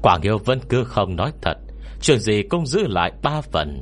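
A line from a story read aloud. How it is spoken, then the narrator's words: Laughing. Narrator (Vietnamese): Quy Bất Quy bật cười kha kha, tiếp tục nói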